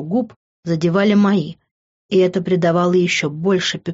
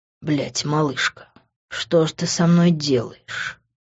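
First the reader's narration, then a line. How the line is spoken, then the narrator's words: Low voice. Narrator (Russian): Низким голосом произнес он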